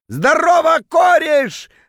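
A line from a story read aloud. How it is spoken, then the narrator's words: Drunken yell. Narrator (Russian): заорал он дурным пьяным голосом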